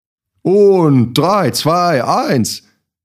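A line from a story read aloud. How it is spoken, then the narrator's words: Calling to group. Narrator (German): rief mein Cousin in die Runde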